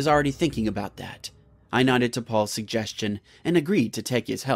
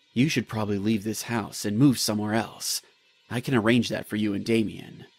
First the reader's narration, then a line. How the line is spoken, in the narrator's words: He spoke in a low voice